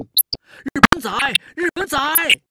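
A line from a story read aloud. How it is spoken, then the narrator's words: Loud jeering. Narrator (Chinese): 有人……跟在后面大声起哄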